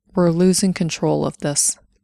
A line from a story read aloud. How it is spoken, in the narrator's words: he said